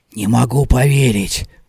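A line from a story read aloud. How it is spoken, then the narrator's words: Whisper. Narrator (Russian): прошептал Талли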